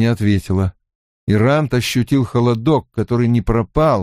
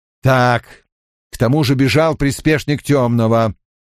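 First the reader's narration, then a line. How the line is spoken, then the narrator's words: Growled. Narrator (Russian): прорычал он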